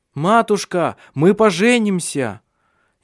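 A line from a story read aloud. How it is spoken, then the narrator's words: Shouting from afar. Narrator (Russian): Еще издали крикнул Ари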